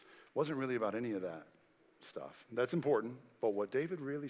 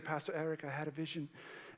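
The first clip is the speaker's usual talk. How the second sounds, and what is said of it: Poor imitation of a man's accent. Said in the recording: “I'm trying to do his accent. I'm terrible at it.”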